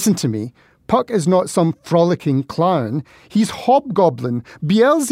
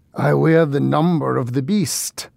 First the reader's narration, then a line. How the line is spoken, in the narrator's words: leaned close to my Puck in order to growl in his ear